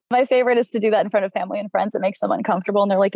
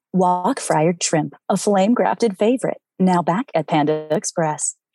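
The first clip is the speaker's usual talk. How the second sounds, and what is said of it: Commercial voice-actor announcer voice. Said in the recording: “into your voice actor voice ... your Panda Express voice ... it's you, but it's not you”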